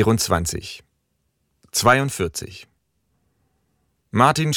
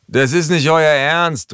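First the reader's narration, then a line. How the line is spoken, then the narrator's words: Called out. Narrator (German): ruft Martin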